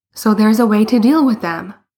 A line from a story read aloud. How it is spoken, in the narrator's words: Bruno exclaimed